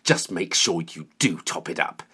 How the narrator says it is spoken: spat

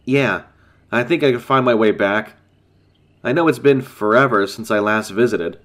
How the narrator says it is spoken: chuckled

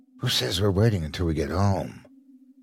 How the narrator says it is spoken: whispered into his ear

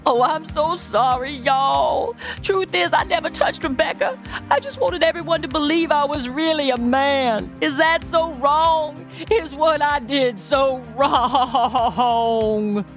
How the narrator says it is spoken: He sobbed wildly

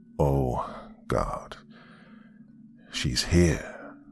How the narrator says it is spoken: Gary said, with a sigh

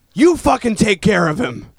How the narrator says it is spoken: someone yelled to Kyle, just a stranger yelled

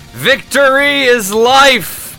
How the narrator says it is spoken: the Jem'Hadar, who charged forward yelling

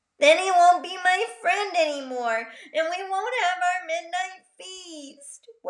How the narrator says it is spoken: wailed Figgy

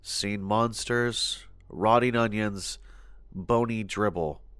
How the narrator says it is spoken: talking softly to himself, saying things like

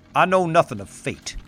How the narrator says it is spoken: he says sternly

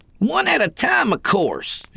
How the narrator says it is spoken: he bellowed

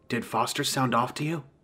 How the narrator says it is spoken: whispered

